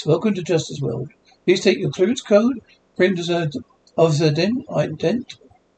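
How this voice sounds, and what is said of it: Deep computer voice. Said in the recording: “Deep voice”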